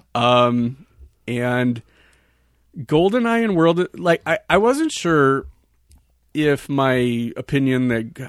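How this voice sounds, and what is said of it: Speaking unusually slowly. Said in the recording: “I don't know why I'm talking so slow today.”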